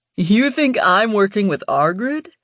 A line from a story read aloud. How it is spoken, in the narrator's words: laughed